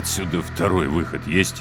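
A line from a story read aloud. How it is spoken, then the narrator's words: Utterly dejected voice. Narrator (Russian): Вконец упавшим голосом осведомился Три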